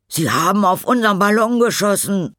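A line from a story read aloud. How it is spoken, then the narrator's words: Calls out. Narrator (German): ruft Tom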